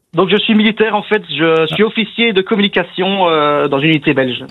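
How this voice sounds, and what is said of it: Belgian French accent from Namur. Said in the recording (French): “l'accent de Namur”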